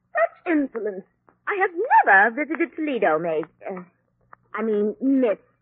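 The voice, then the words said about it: Strained put-on accent. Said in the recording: “Don't strain your accent, honey.”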